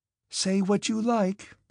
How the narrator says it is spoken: exclaimed Sonya in a despairing voice

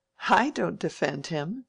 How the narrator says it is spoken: said Mary, laughing

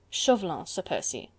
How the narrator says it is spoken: remarked the ex-ambassador dryly

